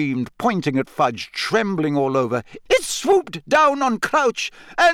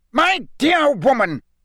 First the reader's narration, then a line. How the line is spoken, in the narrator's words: roared Fudge, who likewise looked angrier than Harry had ever seen him